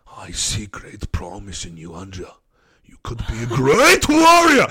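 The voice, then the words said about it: Put-on Japanese accent, calm old man. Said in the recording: “Japanese accent... I can do old, wise Japanese man... That's my impression of an old Japanese man... They'll start off very calm”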